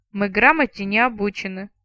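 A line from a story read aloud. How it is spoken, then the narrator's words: Grudgingly respectful grumble. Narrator (Russian): проворчала с наклюнувшимся уважением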